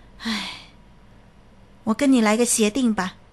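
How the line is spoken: Sighing. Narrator (Chinese): 医生叹了一口气，说

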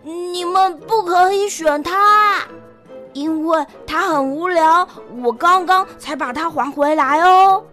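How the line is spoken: Loud. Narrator (Chinese): 我大声地说

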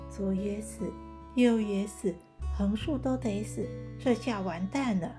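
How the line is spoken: Muttering to himself. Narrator (Chinese): 阿才喃喃自语

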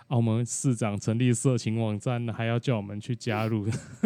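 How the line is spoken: Group speaking while laughing. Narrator (Chinese): 我们大家就边边笑说

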